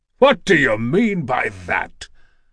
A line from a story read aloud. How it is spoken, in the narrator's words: Zeus's voice thundered